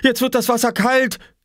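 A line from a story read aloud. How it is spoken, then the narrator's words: Shouting. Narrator (German): schrie Oskar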